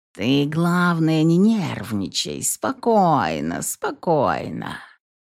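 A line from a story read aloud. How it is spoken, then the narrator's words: Ingratiating cat purr. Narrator (Russian): вкрадчиво промурлыкал кот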